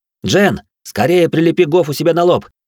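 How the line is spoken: Shouting. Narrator (Russian): крикнул я

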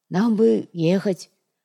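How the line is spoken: Timid speech. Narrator (Russian): Робко произнес Натуга

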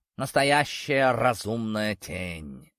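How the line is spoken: Thoughtful drawl. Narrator (Russian): задумчиво протянул сгусток меховой тьмы

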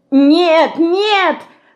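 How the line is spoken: Terrified scream. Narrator (Russian): с ужасом закричала Динка

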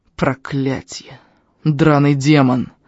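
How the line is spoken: Old man's angry hiss. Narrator (Russian): зло прошипел старик

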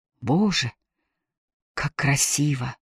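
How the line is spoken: Enchanted whisper. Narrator (Russian): завороженно прошептала она

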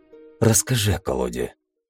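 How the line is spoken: Whispered request. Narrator (Russian): шепотом попросил я

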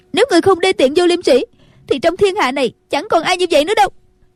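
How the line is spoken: Angry. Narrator (Vietnamese): Nhạc Linh Sàn tức giận nói

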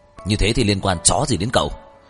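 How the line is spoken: Roar. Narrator (Vietnamese): tiếng gầm của Tấn Tuyên

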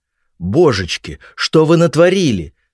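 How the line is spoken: Exclamation. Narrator (Russian): воскликнула она

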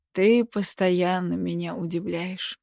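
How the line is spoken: Quiet. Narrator (Russian): тихо сказал он

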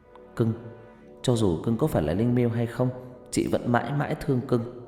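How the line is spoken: Whispered. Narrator (Vietnamese): Huyền lúc này mới thì thầm

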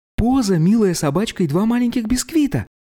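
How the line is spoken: Exclamation. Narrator (Russian): воскликнула она

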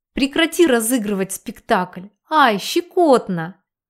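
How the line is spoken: Laughing loudly. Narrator (Russian): Я хохотала

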